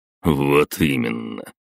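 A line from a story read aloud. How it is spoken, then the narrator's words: Wry snort. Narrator (Russian): хмыкнул Перун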